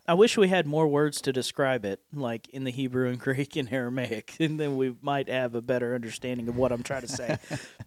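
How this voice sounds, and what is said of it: Appalachian accent. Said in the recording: “my Appalachian accent”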